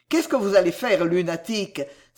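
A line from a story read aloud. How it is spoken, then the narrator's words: Exclamation. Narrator (French): s'écria Sam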